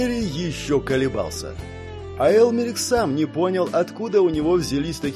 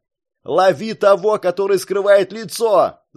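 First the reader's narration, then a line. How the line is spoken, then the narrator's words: Yelled. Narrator (Russian): заорал Барт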